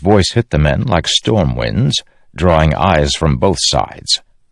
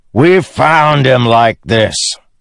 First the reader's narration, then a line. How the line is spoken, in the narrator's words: Teft of Bridge 4 shouted back